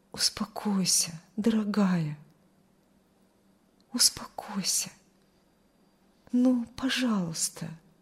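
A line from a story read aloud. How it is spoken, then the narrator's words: Soft soothing whisper. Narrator (Russian): тихо шептал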